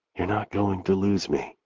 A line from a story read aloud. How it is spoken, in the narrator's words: she whispers